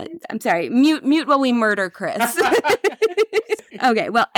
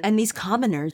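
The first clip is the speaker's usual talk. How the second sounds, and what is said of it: Put-on British accent. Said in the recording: “That's my accent. It's. I'm getting more British as we go.”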